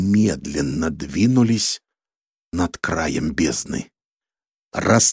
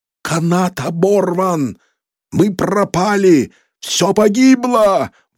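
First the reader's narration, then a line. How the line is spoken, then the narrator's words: Wailing. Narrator (Russian): вопил он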